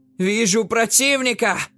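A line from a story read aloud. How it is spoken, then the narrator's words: Shouting. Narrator (Russian): крикнула Джекаара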